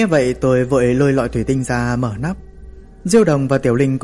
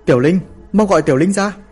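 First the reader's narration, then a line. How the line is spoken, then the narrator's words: Shouting. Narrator (Vietnamese): Hạ Mộng hét lên với tôi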